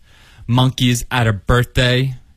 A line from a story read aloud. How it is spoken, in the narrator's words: she said